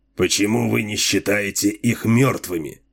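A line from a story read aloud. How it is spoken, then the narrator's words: Hoarse question. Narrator (Russian): хрипло спросил Дилуло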